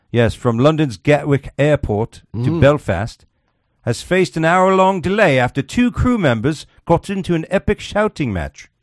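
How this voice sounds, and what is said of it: Put-on English accent. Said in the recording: “we all have to talk with an English accent.”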